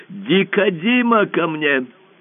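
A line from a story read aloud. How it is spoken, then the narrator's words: Shout. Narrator (Russian): Император закричал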